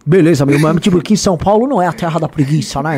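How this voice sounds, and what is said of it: Exaggerated put-on São Paulo accent. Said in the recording (Portuguese): “vamos combinar um negócio. Você vai fazer um sotaque mais baiano que você conseguir ... você é super paulista, velho”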